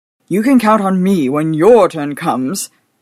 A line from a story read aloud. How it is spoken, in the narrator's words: he exclaimed gratefully